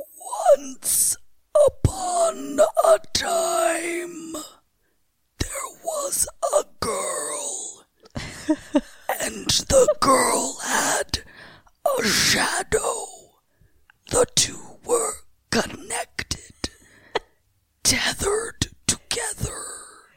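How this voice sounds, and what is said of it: Eerie whispery impression voice. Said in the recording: “That was the impression I've been working on... whispered in their ear in that voice and made them scream... it's very difficult to do”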